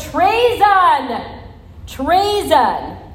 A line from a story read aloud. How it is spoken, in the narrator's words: she screamed as loud as she could